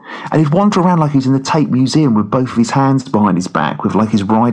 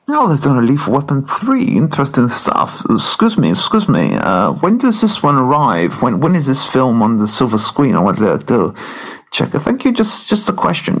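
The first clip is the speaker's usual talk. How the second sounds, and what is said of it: Chris Eubank impression. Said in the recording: “My name's Chris Eubank... That's not bad, that impression... Chris Eubank.”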